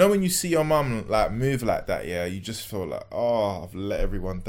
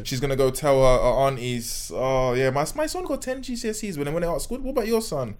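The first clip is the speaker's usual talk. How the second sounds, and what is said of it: Put-on accent imitating a mother. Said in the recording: “that was a good accent, to be honest. That was a good accent.”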